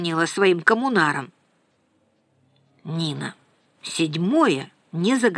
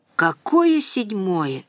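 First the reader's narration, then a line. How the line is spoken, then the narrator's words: Tired questioning. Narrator (Russian): устало переспросила Нина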